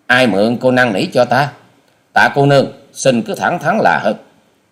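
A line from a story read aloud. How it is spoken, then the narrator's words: Sullen, snapping. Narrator (Vietnamese): Hoa sĩ Kiệt sầm ngay nét mặt rồi gắt lời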